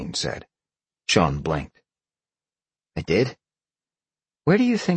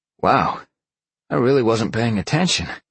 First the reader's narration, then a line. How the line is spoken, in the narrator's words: he chuckled